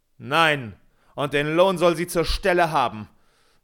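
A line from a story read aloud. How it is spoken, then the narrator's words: Terrible furious scream. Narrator (German): schrie eine schreckliche Stimme, Herr Peter mit blutrotem Gesicht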